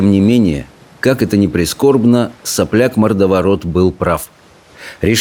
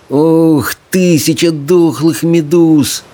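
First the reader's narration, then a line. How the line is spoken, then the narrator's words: Groaning. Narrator (Russian): простонал Рыбьенок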